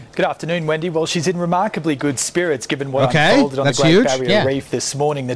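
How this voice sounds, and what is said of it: Australian accent. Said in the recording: “I love Australian accents”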